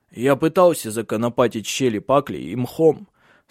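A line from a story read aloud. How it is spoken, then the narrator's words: Hoarse voice. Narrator (Russian): сказал он хрипловатым голосом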